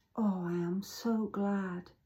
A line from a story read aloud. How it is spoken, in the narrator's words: she whispered softly